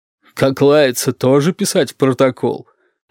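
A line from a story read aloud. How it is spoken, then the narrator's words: Gloating bass voice. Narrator (Russian): злорадным басом спросила Розалия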